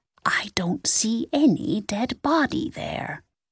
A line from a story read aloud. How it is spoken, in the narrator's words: she whispered